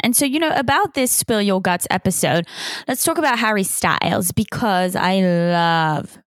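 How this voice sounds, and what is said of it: British accent with mixed influences. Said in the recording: “I'm from the UK as you can probably hear, but everyone's fucking confused by my accent because I've lived everywhere, but I'm UK and Swiss.”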